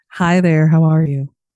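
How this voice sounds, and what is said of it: Smooth, polished radio-host voice. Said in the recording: “you put your radio voice on for this ... Real professional ... You sounded like a sex therapist”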